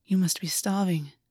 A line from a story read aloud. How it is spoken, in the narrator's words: August said softly